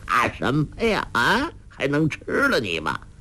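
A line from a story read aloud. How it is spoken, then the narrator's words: Laughing. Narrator (Chinese): 洪七公笑道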